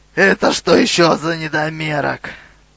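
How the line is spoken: Hoarse monster rasp. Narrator (Russian): Гигантская незабудка, очевидно лидер всего отряда монстров, прохрипела

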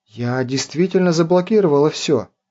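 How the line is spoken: Confused mumble. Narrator (Russian): растерянно пробормотала Цези

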